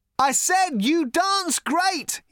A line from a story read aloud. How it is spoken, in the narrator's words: he shouted